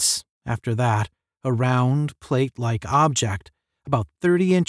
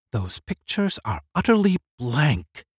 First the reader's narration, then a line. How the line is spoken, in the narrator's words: he said quietly